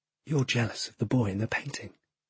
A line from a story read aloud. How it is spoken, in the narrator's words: the boy called Crow whispers in my ear